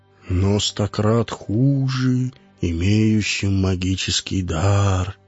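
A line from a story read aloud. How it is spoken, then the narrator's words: Quiet reproach. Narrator (Russian): тихо, укоризненно сказал Орвин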